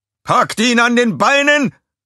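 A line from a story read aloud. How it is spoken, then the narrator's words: Called out. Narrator (German): rief einer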